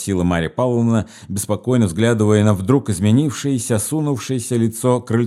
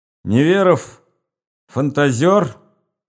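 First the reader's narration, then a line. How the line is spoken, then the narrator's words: Sudden breathless speech. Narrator (Russian): заговорил вдруг Крыльцов, задыхаясь, точно он долго кричал или пел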